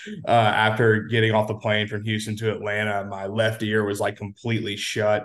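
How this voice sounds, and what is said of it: Sick, under-the-weather voice. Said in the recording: “playing hurt, a little bit under the weather ... you can tell by my voice, I'm probably like 75% right now”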